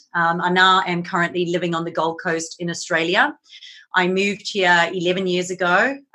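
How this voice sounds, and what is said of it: Mixed South African accent. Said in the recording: “I'm originally from South Africa, so you'll notice I have a little bit of a mixed accent.”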